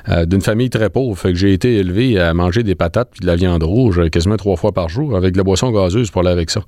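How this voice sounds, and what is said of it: Lac-Saint-Jean Quebec French accent. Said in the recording (French): “mon accent, vous pouvez comprendre qui vient du Lac-Saint-Jean”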